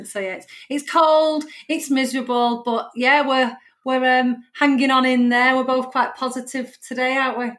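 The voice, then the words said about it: Broad northern English accent. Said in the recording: “We've got a very broad northern accent.”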